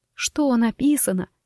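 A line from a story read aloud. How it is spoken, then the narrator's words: Whisper holding back tears. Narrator (Russian): прошептала я, кусая губы, чтобы не разреветься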